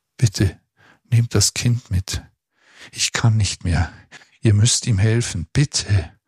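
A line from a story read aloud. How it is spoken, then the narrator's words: Quiet panting. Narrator (German): keuchte Maria leise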